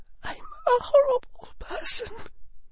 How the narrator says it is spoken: said in a wavering voice

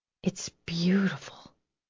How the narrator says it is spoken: Lauren whispered

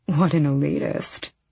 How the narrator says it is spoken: Vernon muttered to the Duke

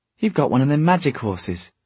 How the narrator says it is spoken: he exclaimed

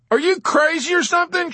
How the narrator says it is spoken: shouted Dobbs

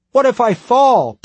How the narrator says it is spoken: Tim cried

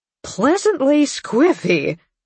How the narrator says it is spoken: Beth mimicked

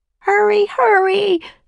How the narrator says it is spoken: screamed Annie

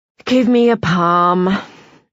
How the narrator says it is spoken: The psychic sighs heavily and says

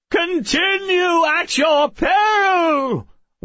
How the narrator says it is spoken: wailed the fifth

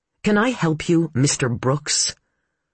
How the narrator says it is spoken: Her tone was acid with sarcasm

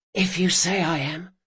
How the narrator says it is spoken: whispered Locke

